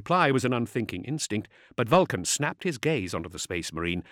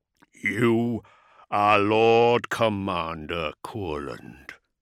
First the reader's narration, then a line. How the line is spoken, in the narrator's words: growled the Primarch